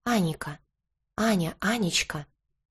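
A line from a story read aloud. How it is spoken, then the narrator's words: Whispered. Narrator (Russian): шептал дракон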